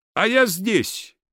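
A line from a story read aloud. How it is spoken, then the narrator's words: Shouting. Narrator (Russian): прокричал Прозрачный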